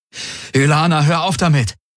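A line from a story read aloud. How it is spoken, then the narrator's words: Exclaimed. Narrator (German): rief er aus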